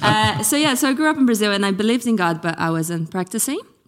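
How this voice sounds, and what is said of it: Mixed Brazilian-English accent. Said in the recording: “the weird accent ... Brazilian, American, Aussie... English accent”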